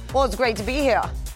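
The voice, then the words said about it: Put-on accent, not very good. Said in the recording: “you got to do the accent again ... Oh, there it is ... That wasn't good at all.”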